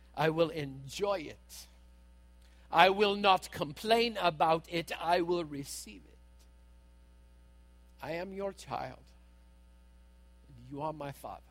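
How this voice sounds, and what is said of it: Put-on accent. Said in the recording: “I don't use the accent to try and make fun.”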